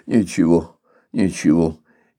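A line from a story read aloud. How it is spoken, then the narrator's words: Indistinct mumble. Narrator (Russian): Но он только невнятно пробормотал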